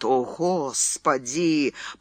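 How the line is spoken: Anguished moan. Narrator (Russian): простонал Фрэнсис

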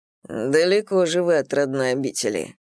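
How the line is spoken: Dry, smiling. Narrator (Russian): сухо улыбнулся Мурха

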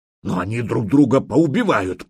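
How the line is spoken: Growl. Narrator (Russian): прорычал Фарлав

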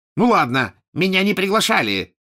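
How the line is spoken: Angry outburst. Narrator (Russian): сердито выпалил он

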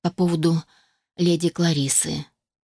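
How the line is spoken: Slightly guilty tone. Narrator (Russian): заговорила она немного виноватым тоном

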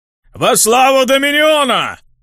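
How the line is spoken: Massed soldiers' roar, clanging weapons. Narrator (Russian): Рявкнула 13-я когорта 13-го легиона, лязгнув оружием

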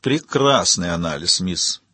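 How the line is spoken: Sarcastic. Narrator (Russian): язвительно сказал Яго

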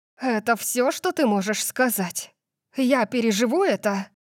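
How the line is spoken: Hissed. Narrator (Russian): Прошипела

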